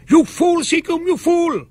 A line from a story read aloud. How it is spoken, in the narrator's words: my captain rushed after me, shouting